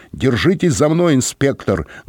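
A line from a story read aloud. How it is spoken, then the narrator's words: Barked while running. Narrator (Russian): гаркнул он на бегу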